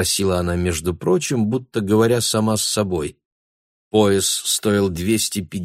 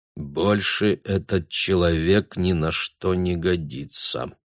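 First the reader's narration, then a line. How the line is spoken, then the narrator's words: Muttering. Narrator (Russian): пробормотал Бруно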